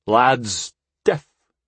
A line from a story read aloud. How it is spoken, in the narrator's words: slurred